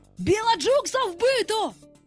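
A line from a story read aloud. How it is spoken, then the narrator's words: Frightened shouting pirates. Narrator (Ukrainian): сполохано закричали пірати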